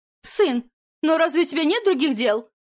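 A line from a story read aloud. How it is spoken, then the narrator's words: Shouting, trembling with rage. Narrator (Russian): прокричала вдовствующая герцогиня нам вслед, дрожащим от ярости голосом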